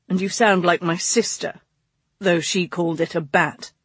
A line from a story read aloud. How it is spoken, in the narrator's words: August grumbled